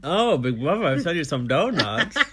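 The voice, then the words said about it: Imitates another person's voice. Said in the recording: “did a Rodrigo impression”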